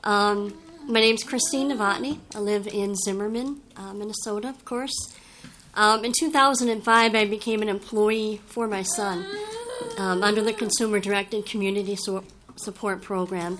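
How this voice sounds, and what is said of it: Hoarse voice. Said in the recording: “I'm a little hoarse, have a cold.”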